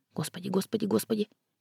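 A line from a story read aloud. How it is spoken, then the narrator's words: Rapid whisper. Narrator (Russian): шепота скороговоркой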